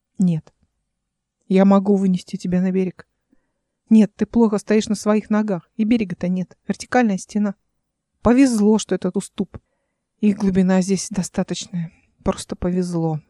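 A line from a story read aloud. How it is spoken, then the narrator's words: Sighing. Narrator (Russian): вздохнула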